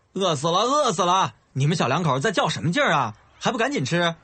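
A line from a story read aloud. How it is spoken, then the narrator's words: Loud shout. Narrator (Chinese): 悠悠大声喊着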